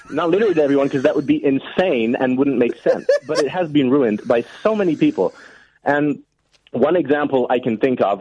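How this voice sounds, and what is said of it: Good put-on American accent. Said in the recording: “I'm going to stop doing that accent ... what is your accent then? ... Are you not an American? ... That was a good accent, man.”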